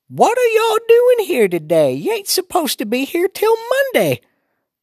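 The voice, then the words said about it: Old woman's Southern accent. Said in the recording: “talk Southern style, you should hear Grandma”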